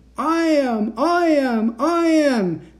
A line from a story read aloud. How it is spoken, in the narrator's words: the shouts continued until the voices made my head throb